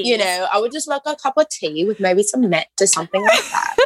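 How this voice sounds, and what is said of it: Unconvincing put-on British accent. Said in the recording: “Are we going to get a British accent out of you as well ... Every British listener has turned off this episode already.”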